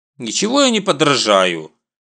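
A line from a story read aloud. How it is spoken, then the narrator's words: Sulky, offended reply. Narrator (Russian): обиженно надувшись, отвечает Сунок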